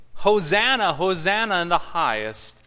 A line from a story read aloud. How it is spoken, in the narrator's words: People were shouting with joy